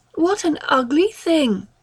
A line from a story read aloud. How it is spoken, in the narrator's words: exclaimed Mary, rather pleased at being able to say so with conviction